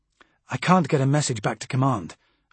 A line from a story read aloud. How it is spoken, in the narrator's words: I said